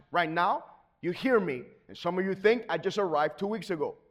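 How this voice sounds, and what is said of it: Non-native accented English. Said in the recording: “even my accent, if you haven't noticed, I got one... I have an accent in both of my languages that I speak... in English, I preach, but I have an accent.”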